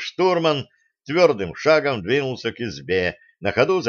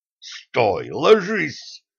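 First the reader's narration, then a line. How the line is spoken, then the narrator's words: Hissing. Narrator (Russian): зашипел на него командир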